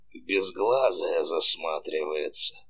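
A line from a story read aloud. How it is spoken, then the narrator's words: Toothless old woman mumbling. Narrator (Russian): шамкала старуха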